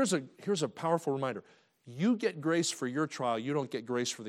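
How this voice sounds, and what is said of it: Usual voice. Nothing is said of it.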